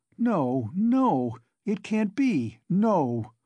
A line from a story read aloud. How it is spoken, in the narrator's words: Sonia cried aloud in desperation, as though she had been stabbed